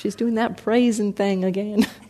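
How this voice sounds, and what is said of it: Put-on light Southern accent. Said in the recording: “I used a tone of voice. I used to live in Texas, so I created a little southern accent”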